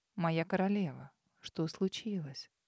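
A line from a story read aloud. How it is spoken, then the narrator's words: Gentle question. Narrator (Russian): Ласково спросил Дорн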